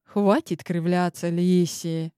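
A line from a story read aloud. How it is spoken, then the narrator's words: Sighing. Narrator (Russian): Вздохнул он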